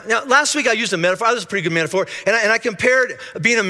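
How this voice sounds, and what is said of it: Usual voice. Nothing is said of it.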